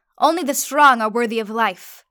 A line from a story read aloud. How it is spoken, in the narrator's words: shouted my cousin, as the crowd roared